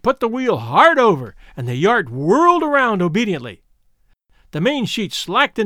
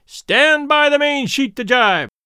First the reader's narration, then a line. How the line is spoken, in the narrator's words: shouted